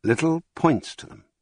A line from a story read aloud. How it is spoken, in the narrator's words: said I, as calmly as possible, with a catch in my breath